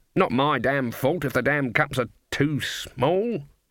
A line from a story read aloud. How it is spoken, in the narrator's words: muttered